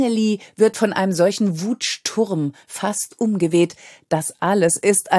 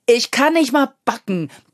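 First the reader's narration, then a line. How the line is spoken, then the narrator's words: Bellowed in capitals. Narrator (German): brüllt er schließlich dann in Großbuchstaben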